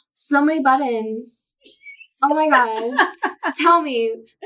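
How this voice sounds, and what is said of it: Valley Girl voice. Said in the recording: “my Valley Girl voice”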